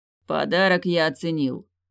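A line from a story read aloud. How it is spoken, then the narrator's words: Amused snort. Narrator (Russian): хмыкнул он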